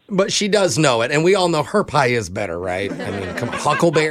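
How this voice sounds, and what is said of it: Put-on foreign accent. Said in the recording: “foreign accent”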